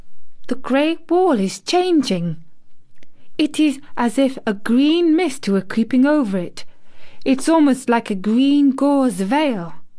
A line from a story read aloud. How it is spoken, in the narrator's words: she cried